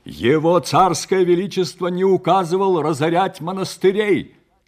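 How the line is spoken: Loud interruption. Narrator (Russian): также громко перебил его чернец

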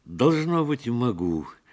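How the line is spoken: Joyful laughter. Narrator (Russian): Он засмеялся от переполнявшей его радости

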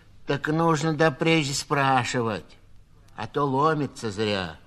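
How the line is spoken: Rude nurse. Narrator (Russian): грубо сказала сиделка

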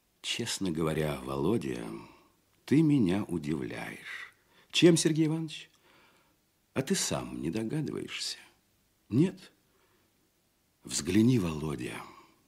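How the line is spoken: Quiet, worried. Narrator (Russian): тихо и озабоченно говорил Казачок

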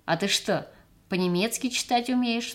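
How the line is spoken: Plain. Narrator (Russian): спросил он

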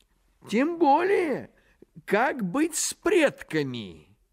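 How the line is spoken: Exclaiming. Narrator (Russian): воскликнул Находчивый

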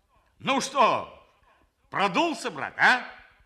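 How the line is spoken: Shout. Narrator (Russian): крикнул он

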